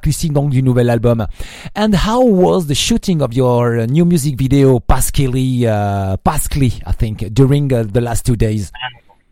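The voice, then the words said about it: Non-native accented English. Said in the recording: “sorry for my accent”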